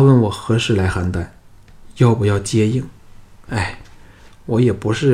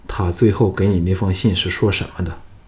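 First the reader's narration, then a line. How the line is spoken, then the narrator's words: Meek, sheepish. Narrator (Chinese): 京俊惭愧的唯唯以诺说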